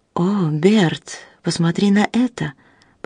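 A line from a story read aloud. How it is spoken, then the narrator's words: Whispered. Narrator (Russian): прошептала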